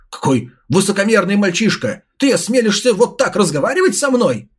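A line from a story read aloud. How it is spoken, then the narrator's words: Elder exclaiming, teeth grinding. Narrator (Russian): Скрипя зубами, воскликнул старейшина Ван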